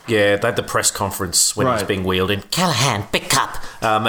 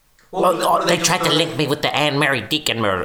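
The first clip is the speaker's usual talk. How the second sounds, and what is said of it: Put-on accent. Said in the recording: “Excuse the accent again.”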